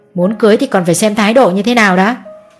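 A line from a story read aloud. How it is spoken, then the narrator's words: Father, slightly sharp tone. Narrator (Vietnamese): Bố Nam hơi gắt giọng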